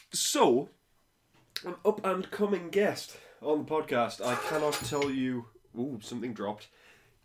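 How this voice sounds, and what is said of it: Out of breath, unwell voice. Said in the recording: “I'm out of breath because I'm poorly”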